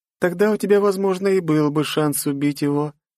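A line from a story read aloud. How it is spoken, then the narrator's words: Cheerful. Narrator (Russian): весело поведала она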